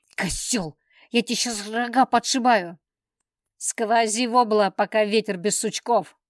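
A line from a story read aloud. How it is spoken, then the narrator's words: Spiteful spat words. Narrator (Russian): злобно выплюнув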